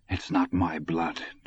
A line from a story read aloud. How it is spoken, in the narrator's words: Dusander muttered